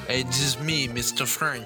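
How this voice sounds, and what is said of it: Exaggerated fake French accent. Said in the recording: “prank call someone with an outrageous French accent”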